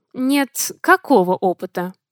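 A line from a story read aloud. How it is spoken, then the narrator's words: Cold question. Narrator (Russian): Холодно поинтересовался он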